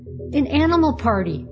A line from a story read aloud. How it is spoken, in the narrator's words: cried Mabel, her eyes sparkling